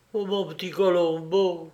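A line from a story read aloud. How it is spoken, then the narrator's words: Sad moan. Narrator (French): gémit la triste compagne du voleur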